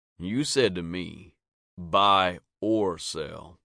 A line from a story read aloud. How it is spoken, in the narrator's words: Sam said slowly